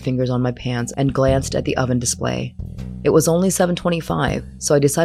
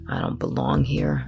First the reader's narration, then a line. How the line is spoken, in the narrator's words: muttered, overcome by a familiar sense of displacement